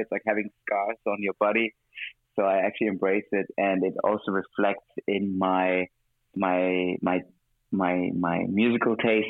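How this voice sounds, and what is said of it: Mixed international non-native accent. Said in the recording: “I was trying to have a more British accent, I guess, in a way, which would never happen, uh, at least not fully ... multiculti, gypsy, like vagabond kind of accent”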